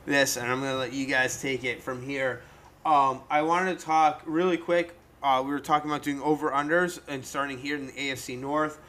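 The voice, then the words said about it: Hoarse, fading voice. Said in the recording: “I'm starting to lose my voice.”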